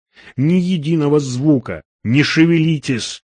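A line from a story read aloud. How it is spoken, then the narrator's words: Whispered. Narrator (Russian): прошептал он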